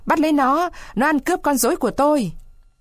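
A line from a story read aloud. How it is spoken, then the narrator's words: Old man's loud yell. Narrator (Vietnamese): lão Caraba Baraba … hét tướng lên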